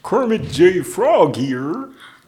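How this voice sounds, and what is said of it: Kermit the Frog impression. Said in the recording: “Do your best Kermit versus Miss Piggy. What would Kermit say?”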